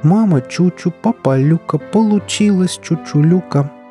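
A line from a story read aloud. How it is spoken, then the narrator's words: Singing. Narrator (Russian): пропела Чучулюка и снова вздохнула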